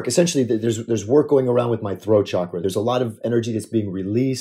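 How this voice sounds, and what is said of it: Deeper, slightly froggy voice. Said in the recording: “my voice may sound a little, I'm not sure, maybe deeper, maybe a little froggy”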